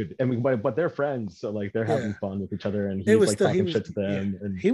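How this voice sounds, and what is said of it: Usual voice. Nothing is said of it.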